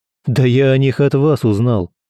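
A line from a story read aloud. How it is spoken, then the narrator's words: Snorted. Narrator (Russian): фыркнул Герман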